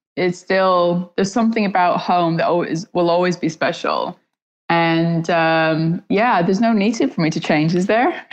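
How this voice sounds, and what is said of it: Canadian accent. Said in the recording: “you still sound Canadian”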